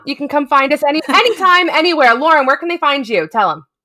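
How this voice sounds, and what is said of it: Noticeable accent coming through. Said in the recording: “I love when your accent comes out. It's hilarious.”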